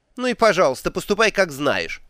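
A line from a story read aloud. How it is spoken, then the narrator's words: Snorting. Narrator (Russian): фыркнула матушка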